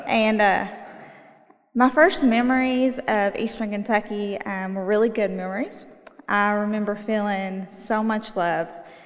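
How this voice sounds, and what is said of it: Eastern Kentucky Appalachian accent. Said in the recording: “So I'm originally from Eastern Kentucky. I bet y'all are very surprised with my accent”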